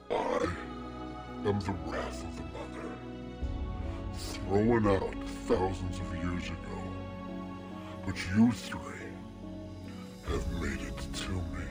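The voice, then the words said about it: Deep character voice. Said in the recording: “the deep voice comes from this giant, stricken down, chained up angel”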